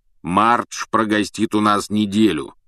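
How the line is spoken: Deep bass voice. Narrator (Russian): пробасил дядя Вернон

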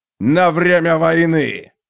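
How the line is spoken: Growling. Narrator (Russian): прорычал варвар

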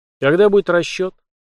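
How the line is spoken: Cold inquiry. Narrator (Russian): холодно блеснув глазами, поинтересовался

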